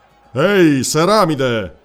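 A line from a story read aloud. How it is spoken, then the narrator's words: Thunderous call. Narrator (Italian): tuonò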